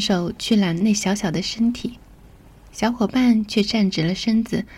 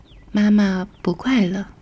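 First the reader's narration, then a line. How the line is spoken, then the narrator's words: Sighing mother. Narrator (Chinese): 母亲叹了口气，说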